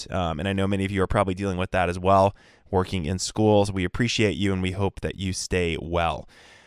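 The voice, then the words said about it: Voice affected by a cold. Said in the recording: “apologize for my voice. I have a little cold.”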